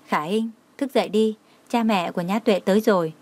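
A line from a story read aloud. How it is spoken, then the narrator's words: Gentle call. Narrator (Vietnamese): nhẹ nhàng gọi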